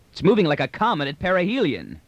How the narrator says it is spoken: yelled Rios

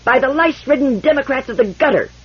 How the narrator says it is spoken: shouted Indebur back at him

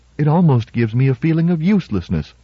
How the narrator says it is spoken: Baker said a little uneasily

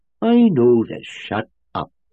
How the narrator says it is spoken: said Powell savagely

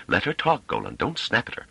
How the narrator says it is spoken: Pellaret said hastily

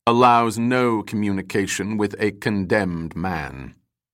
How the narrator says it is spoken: said the Grand Master coldly

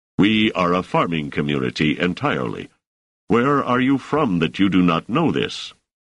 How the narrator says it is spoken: Selden said stiffly

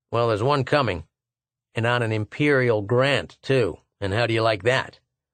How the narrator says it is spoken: He began reciting in the queer unevenness of tone that most people somehow assume automatically when reading aloud

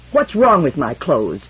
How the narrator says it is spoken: demanded Mies hotly

